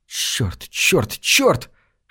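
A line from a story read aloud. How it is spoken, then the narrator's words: Hiss. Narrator (Russian): шипела Бернадетта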